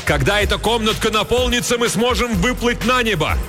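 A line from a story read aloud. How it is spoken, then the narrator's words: Shouting. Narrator (Russian): Хилала закричал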